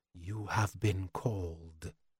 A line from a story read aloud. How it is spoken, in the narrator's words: They murmur